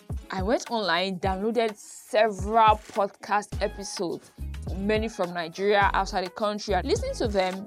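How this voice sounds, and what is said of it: Nigerian Benin accent. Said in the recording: “me and my Benin accent”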